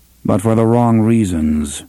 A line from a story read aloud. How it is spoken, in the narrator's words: Roland said in a dry tone